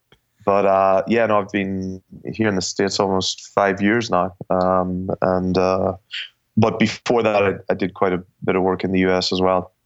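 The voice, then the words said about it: Irish accent. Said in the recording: “based on that accent ... I'm Irish originally. I'll try and speak slow because we have a tendency to speak fast”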